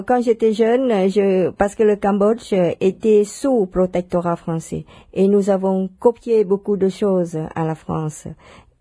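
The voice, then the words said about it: Foreign accent in French. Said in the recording (French): “je ne suis pas une Française comme tout le monde, rien peut-être que mon accent, ça vous le dit. Non, une Française venue d'ailleurs.”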